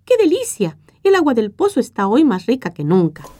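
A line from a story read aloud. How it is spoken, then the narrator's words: Several people exclaiming. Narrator (Spanish): algunos hasta exclamaban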